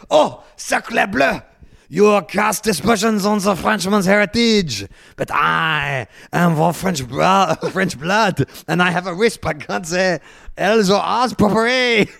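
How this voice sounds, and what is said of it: Put-on exaggerated French accent. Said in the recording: “Will you insist on doing that accent? ... I'm going into two racist accents now.”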